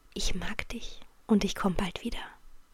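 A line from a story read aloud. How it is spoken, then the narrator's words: Said quietly. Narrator (German): sagte leise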